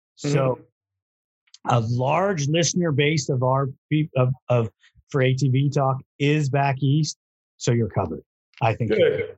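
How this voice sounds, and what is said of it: Southern Kentucky accent. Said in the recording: “that Southern Kentucky accent”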